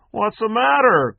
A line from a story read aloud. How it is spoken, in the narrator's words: cried the drunk